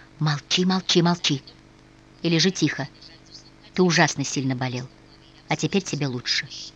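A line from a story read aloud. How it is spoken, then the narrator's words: Smiling whispered command. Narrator (Russian): София по-прежнему улыбаясь, шепотом приказала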